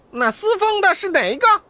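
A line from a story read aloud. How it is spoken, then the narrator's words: Loud call from above. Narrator (Chinese): 半空中高叫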